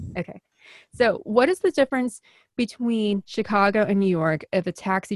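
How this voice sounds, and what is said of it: Usual voice. Nothing is said of it.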